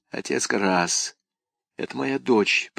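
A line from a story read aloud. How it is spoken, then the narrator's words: Whispered. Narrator (Russian): прошептала Крис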